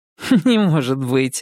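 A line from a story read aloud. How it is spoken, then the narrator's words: Laughing. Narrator (Russian): рассмеялась Даша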